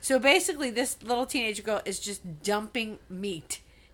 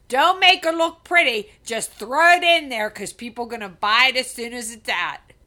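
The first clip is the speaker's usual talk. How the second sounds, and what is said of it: Thick Pittsburgh accent, shouted. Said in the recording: “at the top of her lungs screamed ... she did have a Pittsburgh accent, not as thick as I just did”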